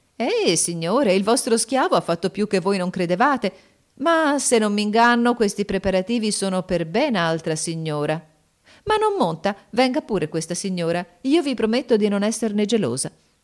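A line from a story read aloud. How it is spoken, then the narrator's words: Delighted exclamation. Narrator (Italian): La signora, al contrario, rapita da quel piacevole spettacolo, esclamò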